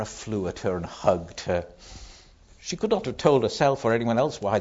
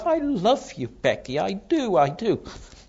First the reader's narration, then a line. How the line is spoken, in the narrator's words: cried out with a queer little